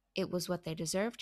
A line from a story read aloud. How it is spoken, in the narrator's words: he said